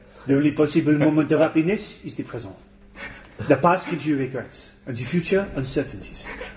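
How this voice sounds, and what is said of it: Put-on French accent. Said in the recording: “in a French accent”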